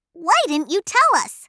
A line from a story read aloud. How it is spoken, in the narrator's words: Fifi exclaimed